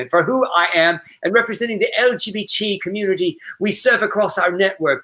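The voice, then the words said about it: Attempted British accent. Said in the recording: “I cannot do it. You can do a better British accent.”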